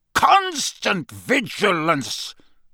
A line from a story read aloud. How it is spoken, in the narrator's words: He barked